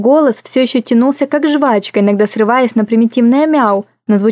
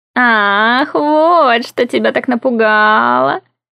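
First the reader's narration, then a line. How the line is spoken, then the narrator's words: Smug drawl. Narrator (Russian): Протянул Монтак самодовольно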